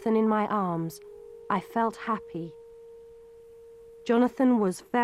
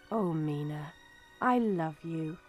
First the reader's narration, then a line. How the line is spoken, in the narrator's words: Jonathan smiled and said softly